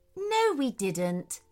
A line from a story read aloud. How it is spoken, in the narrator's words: said calmly